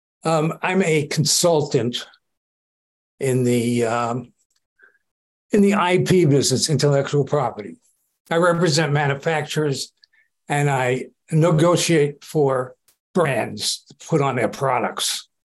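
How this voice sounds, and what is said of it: New York accent. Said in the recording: “With a New York accent. ... Oh, definitely a New York accent.”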